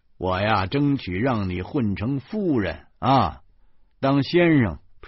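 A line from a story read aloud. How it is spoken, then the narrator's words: Laughing. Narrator (Chinese): 我哈哈笑着说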